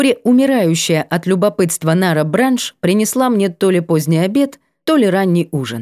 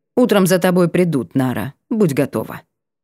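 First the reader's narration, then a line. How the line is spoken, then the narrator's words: Cold warning. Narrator (Russian): Лишь холодно предупредил напоследок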